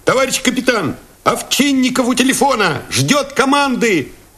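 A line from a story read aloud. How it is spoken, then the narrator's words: Shout. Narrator (Russian): крикнул кто-то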